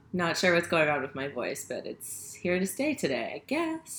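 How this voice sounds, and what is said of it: Slightly raspy voice. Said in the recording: “It's a little raspy.”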